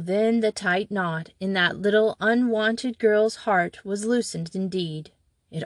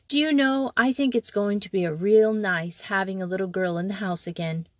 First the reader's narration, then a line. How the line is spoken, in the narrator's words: she said in a conversational tone